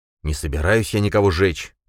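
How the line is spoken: Irritated. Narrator (Russian): ответил Баргат раздраженно

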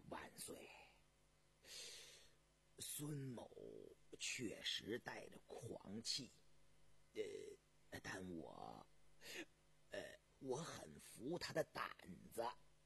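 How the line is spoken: Soft voice. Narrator (Chinese): 朱氏才轻声地说道

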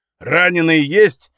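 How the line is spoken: Shout. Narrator (Russian): крикнул Озин

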